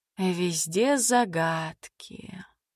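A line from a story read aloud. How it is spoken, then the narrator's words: Disappointed sigh. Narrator (Russian): разочарованно вздохнула Мила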